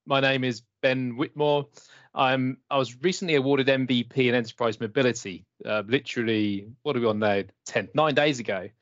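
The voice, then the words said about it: British English accent. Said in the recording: “You might be able to tell from my accent that I'm here in the UK”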